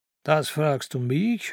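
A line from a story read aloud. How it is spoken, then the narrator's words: Old man sneering. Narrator (German): höhnte der Alte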